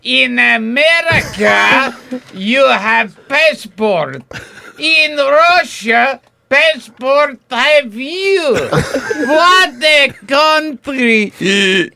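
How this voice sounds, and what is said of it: Russian accent. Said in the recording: “accent is straight up terrifying me ... a Russian accent”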